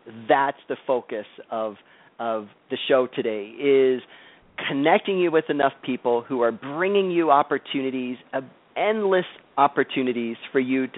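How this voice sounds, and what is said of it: Energetic, enthusiastic, fired-up voice. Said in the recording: “I'm all fired up. You can probably hear it in my voice. ... the energy and the enthusiasm”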